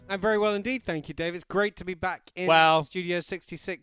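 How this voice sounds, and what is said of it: English accent. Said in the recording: “your English accent.”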